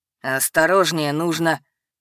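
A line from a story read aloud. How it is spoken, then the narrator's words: Icy tone. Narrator (Russian): начал ледяным тоном Эдгард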